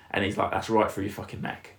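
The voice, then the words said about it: Strong Mancunian accent imitation. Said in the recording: “strong Mancunian accent.”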